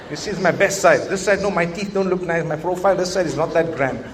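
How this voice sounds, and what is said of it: Malay accent. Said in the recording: “my Malay accent is coming out”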